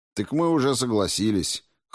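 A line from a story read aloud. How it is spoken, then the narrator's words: Snorting. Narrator (Russian): хмыкнул Спиранский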